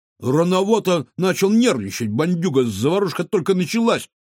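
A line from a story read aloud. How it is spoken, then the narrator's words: Snort. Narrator (Russian): фыркнул Кефир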